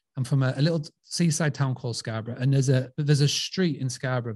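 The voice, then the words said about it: Scarborough Yorkshire English accent. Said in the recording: “So I'm from Scarborough. You can tell by this dodgy accent.”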